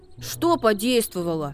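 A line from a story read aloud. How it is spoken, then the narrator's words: Angry question. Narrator (Russian): спросил Макси сердито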